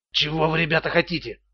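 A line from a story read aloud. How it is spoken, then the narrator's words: Whispering. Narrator (Russian): прошептал Стоун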